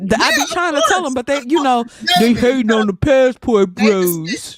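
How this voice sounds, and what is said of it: Usual voice. Nothing is said of it.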